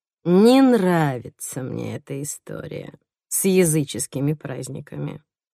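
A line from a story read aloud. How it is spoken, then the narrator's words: Thoughtful drawl. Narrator (Russian): задумчиво протянула я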